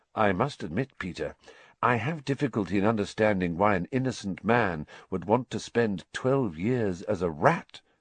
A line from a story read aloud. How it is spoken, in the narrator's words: said Lupin evenly